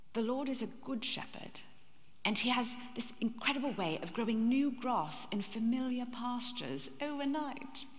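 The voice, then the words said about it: Imitating Jill Briscoe's accent. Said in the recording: “Jill Briscoe ... This elderly woman, she has this fabulous accent. ... And she said it like this.”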